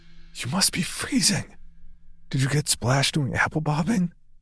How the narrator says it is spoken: I whispered

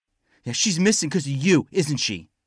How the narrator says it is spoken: Rottenbacher shouted

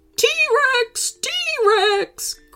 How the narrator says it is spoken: Grandpa cried in horror

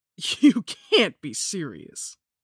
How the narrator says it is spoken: the young bartender spat back

